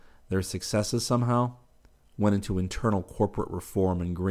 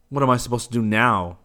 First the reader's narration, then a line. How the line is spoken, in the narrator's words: growled